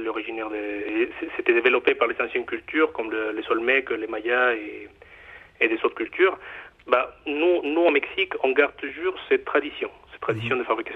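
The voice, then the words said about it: Mexican accent speaking French. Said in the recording (French): “comme, vous l'entendez un peu, mon accent, euh, moi je suis mexicain d'origine”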